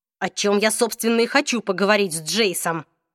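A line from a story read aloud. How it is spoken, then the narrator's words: Hissed. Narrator (Russian): прошипел Алик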